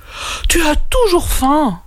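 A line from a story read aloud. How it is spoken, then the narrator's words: Sighing. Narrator (French): soupira Kaou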